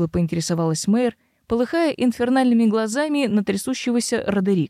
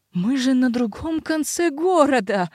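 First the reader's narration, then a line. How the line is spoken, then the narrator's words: Howling helpless fury. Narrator (Russian): взвыл Родерик в бессильной ярости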